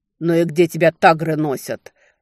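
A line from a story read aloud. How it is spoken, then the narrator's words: Irritated, through teeth. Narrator (Russian): раздраженно процедил Хантабесир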